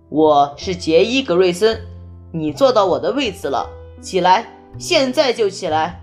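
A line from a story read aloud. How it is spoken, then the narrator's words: Loud, commanding. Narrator (Chinese): 杰伊 用每个人都能听到的声音大声说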